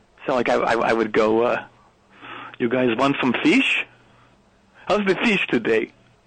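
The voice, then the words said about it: Imitated Norwegian accent. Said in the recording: “imitating the Norwegian accent around the crew. And I've got a pretty good ear for accents. I'm pretty good at them... This is your imitation of the people of Norway.”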